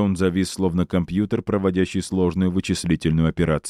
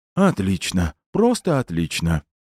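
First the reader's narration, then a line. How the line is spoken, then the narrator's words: Sighing. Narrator (Russian): Снова вздохнул толстяк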